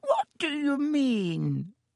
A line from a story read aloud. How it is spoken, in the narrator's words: said Dibbitt with a squeak in his voice